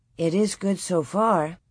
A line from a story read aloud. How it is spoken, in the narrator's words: Laura said quietly